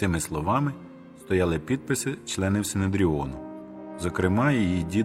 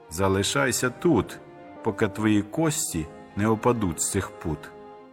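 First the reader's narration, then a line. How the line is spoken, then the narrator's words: Plain. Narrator (Ukrainian): сказав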